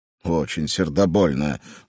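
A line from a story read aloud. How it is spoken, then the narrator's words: Muttered. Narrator (Russian): пробормотал страж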